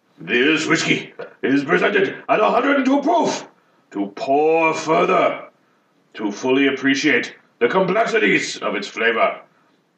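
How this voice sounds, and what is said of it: Bad put-on Japanese accent. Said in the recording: “I now want to read it in a bad Japanese accent.”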